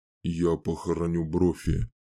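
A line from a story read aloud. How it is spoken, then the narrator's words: Quiet. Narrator (Russian): тихо сказал Чейз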